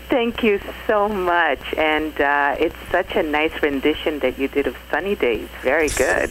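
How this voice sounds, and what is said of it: New York accent. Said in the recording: “her wonderful, beautiful New York accent”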